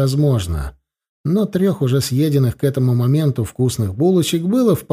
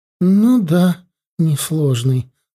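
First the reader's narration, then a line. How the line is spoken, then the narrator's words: Sighing. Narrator (Russian): вздохнула Джоан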